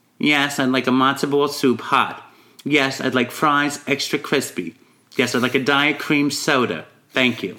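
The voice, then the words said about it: Long Island woman's accent. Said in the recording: “Long Island impression ... my favorite impression. Woman from Long Island ordering food”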